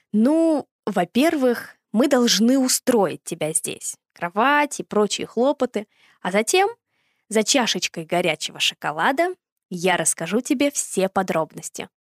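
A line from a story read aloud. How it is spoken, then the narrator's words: Plain. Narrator (Russian): ответил дядя Сёма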